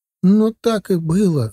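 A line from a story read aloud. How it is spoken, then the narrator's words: Tearful. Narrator (Russian): сквозь слезы ответила соседка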